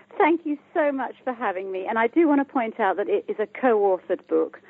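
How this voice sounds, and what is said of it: British English accent. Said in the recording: “I'm from the UK, as you can hear by my accent”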